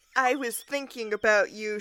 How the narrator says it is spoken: she giggled

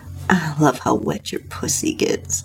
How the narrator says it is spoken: he said with a moan

